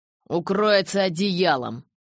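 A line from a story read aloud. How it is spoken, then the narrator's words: Barked. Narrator (Russian): рявкнул я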